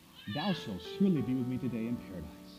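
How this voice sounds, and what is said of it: Exaggerated British accent. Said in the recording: “this perfect British accent.”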